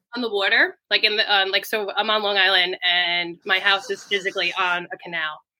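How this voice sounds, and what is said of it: Noticeable regional accent. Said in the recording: “My accent?”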